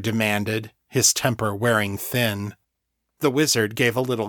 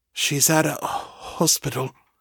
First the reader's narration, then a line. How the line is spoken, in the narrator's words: Isaac said, his voice low and quavering